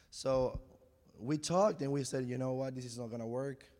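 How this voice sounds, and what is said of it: Voice sounds rough and strained. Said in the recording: “my voice is terrible”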